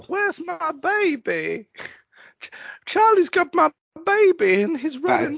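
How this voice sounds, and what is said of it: Poor impression of Claire from Lost. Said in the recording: “the worst impression you've done so far ... it's also not an accurate quote for her”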